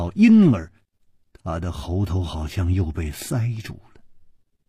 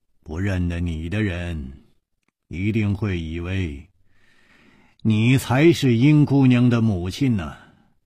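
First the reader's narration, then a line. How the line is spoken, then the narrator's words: Sighing. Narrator (Chinese): 楚留香叹了一口气说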